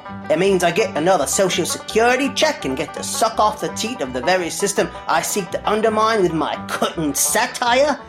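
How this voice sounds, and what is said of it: Unconvincing put-on accent. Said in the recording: “I don't know where you're supposed to be from ... That's not even an accent.”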